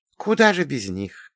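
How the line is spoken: Feigned sigh. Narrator (Russian): притворно вздохнула ведьма

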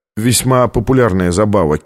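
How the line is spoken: Plain. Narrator (Russian): сказал тот

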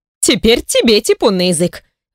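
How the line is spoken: Indignant voice. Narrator (Russian): Возмущенным голосом произносит моя подруга

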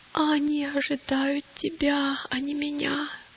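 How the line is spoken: Weak moaning. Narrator (Russian): простонал христианин

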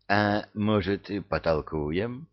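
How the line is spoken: Uncertain, confused question. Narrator (Russian): неуверенно спросил окончательно сбитый с толку Люцифер

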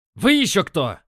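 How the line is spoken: Barking. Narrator (Russian): рявкнул он

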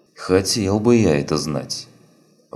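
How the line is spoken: Sigh. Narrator (Russian): вздохнул Чапай

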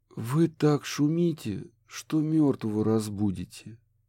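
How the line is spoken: Mutter. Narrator (Russian): пробормотал

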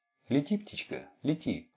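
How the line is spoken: Whisper. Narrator (Russian): шептал

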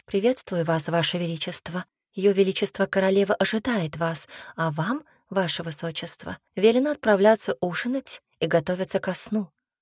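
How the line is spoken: Soft voice. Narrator (Russian): тихонько произнесла

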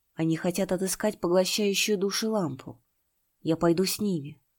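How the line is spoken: Plain. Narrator (Russian): сказал Чинтянь

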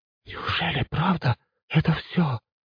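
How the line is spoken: Woman whispering. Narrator (Russian): прошептала какая-то женщина

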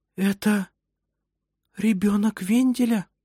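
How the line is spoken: Whisper. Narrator (Russian): прошептала она

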